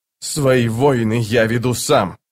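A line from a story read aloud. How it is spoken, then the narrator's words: Growled. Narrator (Russian): прорычал Рейк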